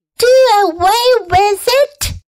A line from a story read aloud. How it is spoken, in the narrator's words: shrieked Fern